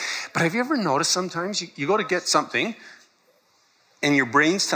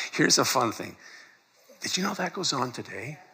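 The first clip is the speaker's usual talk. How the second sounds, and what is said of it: Whispering. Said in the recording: “I don't know why I'm whispering.”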